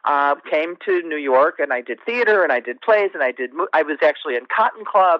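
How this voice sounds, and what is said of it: Upstate New York twang. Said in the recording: “I'm originally from upstate New York, if you can hear the twang”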